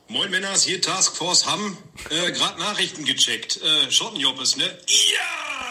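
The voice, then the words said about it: Strong regional German dialect. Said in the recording (German): “dieser Dialekt ist einfach, ist Weltklasse”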